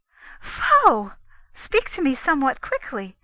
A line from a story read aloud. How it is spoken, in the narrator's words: cried the Lady Sriva